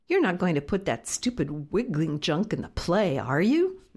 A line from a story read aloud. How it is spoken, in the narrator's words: McKelty grumbled